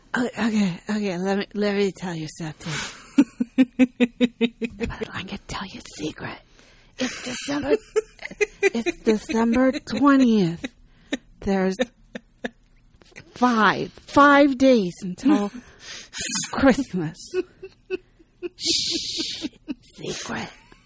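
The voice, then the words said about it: Drunk whisper, Karen Kilgariff impression. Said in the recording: “in the Karen Kilgariff, "I'm drunk and I'm whispering you a secret" voice”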